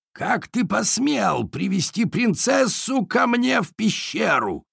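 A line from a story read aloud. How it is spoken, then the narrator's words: Hoarse birdcatcher's voice. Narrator (Russian): хриплый голос птицелова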